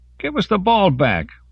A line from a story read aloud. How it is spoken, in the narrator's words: one shouted